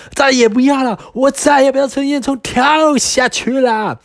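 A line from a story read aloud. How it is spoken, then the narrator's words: Wailing yell. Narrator (Chinese): 他一边哇哇大叫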